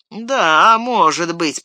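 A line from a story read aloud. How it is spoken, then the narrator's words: Grumbling. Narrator (Russian): проворчал Сэм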